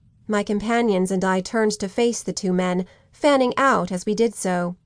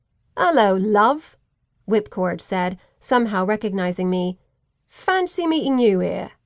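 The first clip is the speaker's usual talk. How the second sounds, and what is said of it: Cockney accent. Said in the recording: “a Cockney accent cut through the night air”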